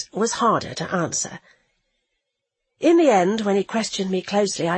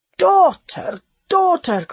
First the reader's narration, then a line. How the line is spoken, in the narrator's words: cried the fox